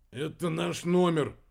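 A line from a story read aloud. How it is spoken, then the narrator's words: Grumbling mutter. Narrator (Russian): буркнул в ответ Кольдер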